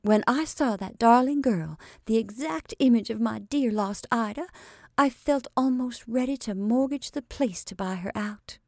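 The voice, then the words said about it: Defiant tone. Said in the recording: “she finished with defiant accent,”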